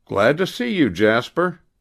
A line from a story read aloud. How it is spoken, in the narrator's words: cried Mr